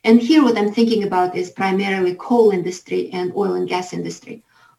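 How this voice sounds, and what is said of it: Heavy accent. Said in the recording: “Omarova has a bit of a heavy accent”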